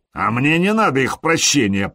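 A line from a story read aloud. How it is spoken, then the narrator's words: Growl. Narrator (Russian): прорычал Харальд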